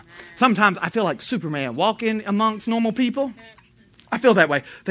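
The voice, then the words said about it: Speaks with a noticeable accent. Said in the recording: “They hear this accent. They subtract 150 IQ points immediately.”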